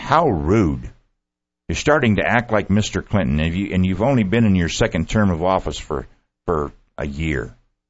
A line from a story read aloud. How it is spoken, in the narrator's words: exclaimed